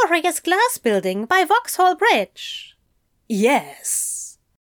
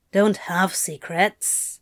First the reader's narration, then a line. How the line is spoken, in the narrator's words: Crowley grumbled petulantly